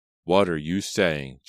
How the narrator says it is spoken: Jonathan cried in disbelief

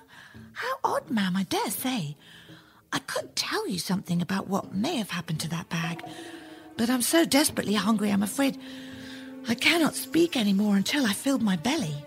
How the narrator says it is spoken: Jack smiled sweetly and replied

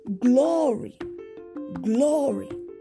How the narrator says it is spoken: shout

